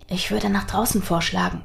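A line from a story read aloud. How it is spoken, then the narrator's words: Whispering. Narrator (German): wisperte Nathaniel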